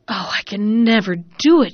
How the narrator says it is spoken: cried at last, wept

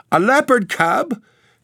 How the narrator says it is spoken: gasped Mrs

